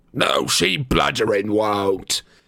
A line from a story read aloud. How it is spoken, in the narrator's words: bellowed Amicus